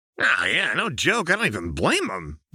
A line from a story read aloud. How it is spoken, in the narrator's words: Jinx said with a cackle